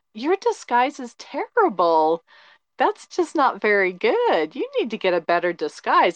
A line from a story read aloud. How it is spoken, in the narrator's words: I literally laughed at it, and I go